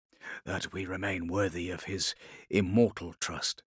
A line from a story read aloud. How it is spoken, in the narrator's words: he said softly, speaking by closed vox